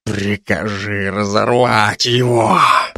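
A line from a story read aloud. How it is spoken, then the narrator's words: Hissing. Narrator (Russian): прошипел Тайрук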